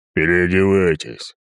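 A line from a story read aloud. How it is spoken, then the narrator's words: Deep bass voice. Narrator (Russian): пробасил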